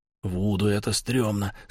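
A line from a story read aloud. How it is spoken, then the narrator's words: Whispered. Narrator (Russian): сказал Мервин шепотом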